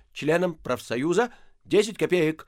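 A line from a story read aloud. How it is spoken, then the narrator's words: Firm shout. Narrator (Russian): Остап закричал довольно твердым голосом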